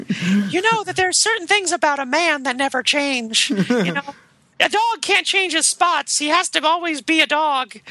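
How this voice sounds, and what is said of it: Poor imitation of another person's voice. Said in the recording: “that's the worst Bernadette Peters impression that anyone's ever attempted”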